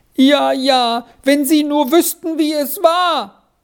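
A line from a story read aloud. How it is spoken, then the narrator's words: Sobbing. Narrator (German): schluchzte Squirrel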